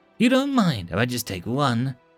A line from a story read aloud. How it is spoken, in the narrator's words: She asked brightly